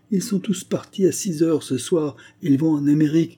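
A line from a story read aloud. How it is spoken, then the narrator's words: Exclaimed. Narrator (French): s'écria-t-elle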